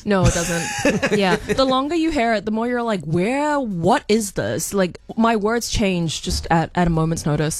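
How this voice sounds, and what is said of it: Mixed, hard-to-place accent. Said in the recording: “your accent makes no sense ... It's a mess in there.”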